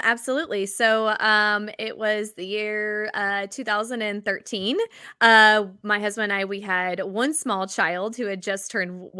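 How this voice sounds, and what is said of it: Southern American accent. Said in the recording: “I just love the Southern accent.”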